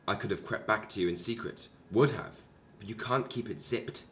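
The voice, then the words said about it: English RP-leaning accent. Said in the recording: “I think some of my accent comes from there ... Northampton ... Lincolnshire ... I've got the majority of my sort of RP from her ... it's mostly Hertfordshire”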